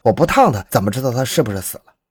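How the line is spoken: Plain. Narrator (Chinese): 说完

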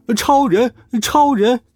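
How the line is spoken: Crowd shouting together. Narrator (Chinese): 所有人都一起喊道

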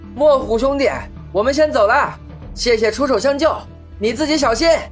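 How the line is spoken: Shouting. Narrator (Chinese): 大喊

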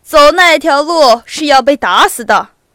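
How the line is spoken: Loud. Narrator (Chinese): 一个兵向他大声说

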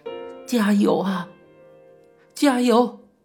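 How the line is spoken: Crying, encouraging. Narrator (Chinese): 同一病房的阿姨们 边哭边摆手的说

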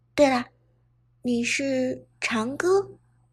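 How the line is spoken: Low questioning voice. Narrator (Chinese): 伍兹 低声问道

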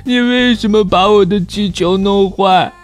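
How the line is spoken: Crying accusation. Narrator (Chinese): 他哭着指控

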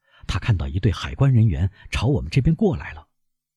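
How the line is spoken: Breathless, hurried. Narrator (Chinese): 见习小水手气喘吁吁地跑来说

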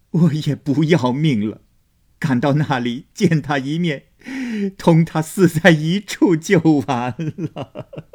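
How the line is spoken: Crying. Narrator (Chinese): 薛姨妈又哭道

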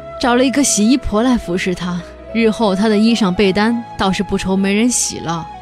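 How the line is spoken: Sighing. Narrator (Chinese): 我叹了一口气说

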